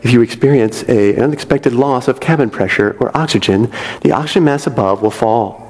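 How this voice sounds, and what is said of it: Imitation of a flight attendant announcement. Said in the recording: “the flight attendants say ... I'm sure that was not a good impression.”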